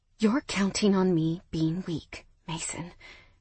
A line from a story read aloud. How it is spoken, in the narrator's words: I whispered, my voice shaky but knife sharp